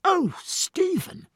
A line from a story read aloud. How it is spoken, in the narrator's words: cried Jack, his look of righteous indignation changing to a flush